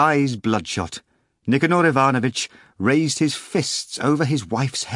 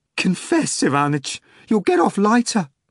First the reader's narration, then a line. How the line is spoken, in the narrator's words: Pelagia Antonovna exclaimed